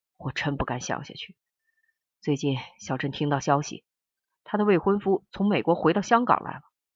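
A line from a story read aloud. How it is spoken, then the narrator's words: Sighing. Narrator (Chinese): 汪世杰叹息的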